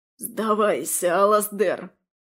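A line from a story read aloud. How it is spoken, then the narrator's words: Hoarse wheeze. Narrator (Russian): прохрипел Дариан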